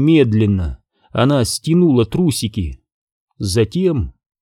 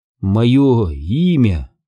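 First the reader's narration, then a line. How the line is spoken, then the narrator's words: Sobbing, hiccuping, gasping. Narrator (Russian): Она заплакала, точнее зарыдала навзрыд, икая и задыхаясь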